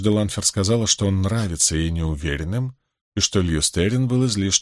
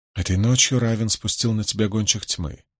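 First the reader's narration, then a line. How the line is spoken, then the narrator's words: Calm. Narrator (Russian): спокойно заявила она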